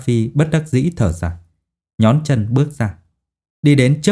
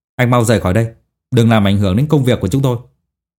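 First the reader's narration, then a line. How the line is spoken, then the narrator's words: Cold urging. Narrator (Vietnamese): Hàn Hạo lại một lần nữa lạnh lùng thúc giục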